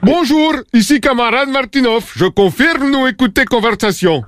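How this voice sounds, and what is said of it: Fake Russian accent, broken French. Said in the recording (French): “moi, faire accent pas caricature”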